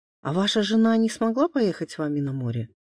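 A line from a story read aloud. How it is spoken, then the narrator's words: Plain. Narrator (Russian): спросила Маша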